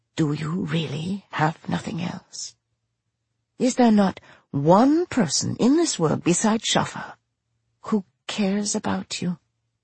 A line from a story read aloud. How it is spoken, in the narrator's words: barely even a thought, but it whispers